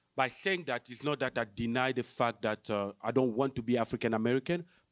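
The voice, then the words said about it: Foreign-accented English, not African-American. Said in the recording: “I'm black, but I'm not African-American. Okay, you can hear that by my accent... it's very hard for you to understand me because I have an accent”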